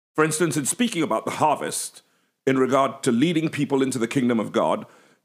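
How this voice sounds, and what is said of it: English accent. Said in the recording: “the English have a distinct and closed O, the way I'm pronouncing it, it's crop”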